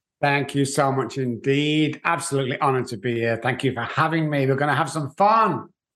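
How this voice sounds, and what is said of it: Speaks with a noticeable accent. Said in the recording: “Love your accent ... let's talk about that accent ... just in case those guys are thinking he's from East Texas, no, I'm not.”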